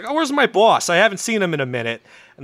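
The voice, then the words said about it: Put-on New York accent. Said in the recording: “his secretary's got a fucking New York accent”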